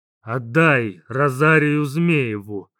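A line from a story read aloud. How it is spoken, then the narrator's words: Deep chesty demand. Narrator (Russian): глубоким грудным голосом потребовала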